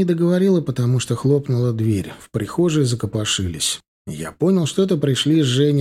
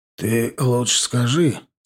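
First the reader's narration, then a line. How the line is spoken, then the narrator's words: Hoarse voice. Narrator (Russian): сказал хрипловатый Степаныч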